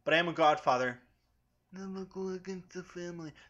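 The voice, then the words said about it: Bad Vito Corleone impression. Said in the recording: “That was a bad impression ... I know it's bad. Everyone knows it's bad.”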